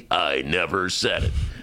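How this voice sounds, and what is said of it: Imitates another person's voice. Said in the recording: “my bad Bernie imitation”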